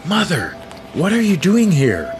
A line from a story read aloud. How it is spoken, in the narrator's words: Princess Tori blurted